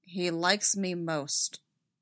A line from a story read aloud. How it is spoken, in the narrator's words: Rex said, flatly disbelieving